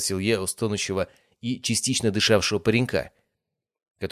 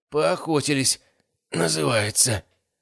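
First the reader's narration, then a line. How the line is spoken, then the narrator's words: Hoarse through clenched teeth. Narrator (Russian): прохрипел парень, стиснув зубы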